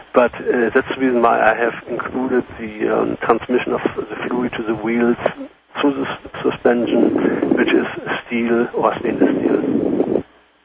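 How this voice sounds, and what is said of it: German accent. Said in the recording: “you have a foreign accent ... I'm from Germany.”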